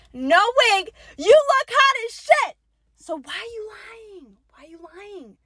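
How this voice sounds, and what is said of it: Yelling. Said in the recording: “Why am I yelling? That's the real question. Why am I yelling”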